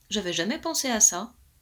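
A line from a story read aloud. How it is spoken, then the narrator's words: Plain. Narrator (French): dit le roi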